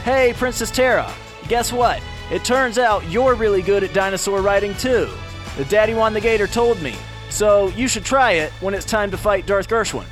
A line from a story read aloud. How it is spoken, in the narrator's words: he shouted to Princess Terra